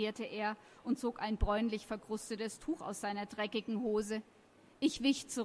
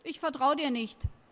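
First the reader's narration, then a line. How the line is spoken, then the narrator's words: Plain. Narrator (German): sagte er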